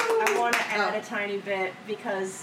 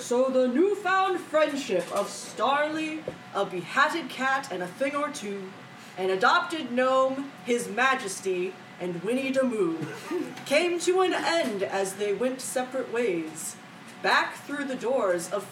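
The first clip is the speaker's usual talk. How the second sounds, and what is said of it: Movie narrator voiceover voice. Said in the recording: “all of the Susian movies have that like narrator voice ... I feel like I'm doing a voiceover like that ... It sounds like that guy who talks like this.”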